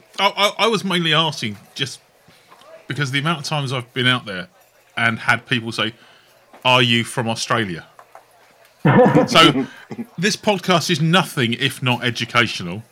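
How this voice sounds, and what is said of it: English accent. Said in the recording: “I have an English accent.”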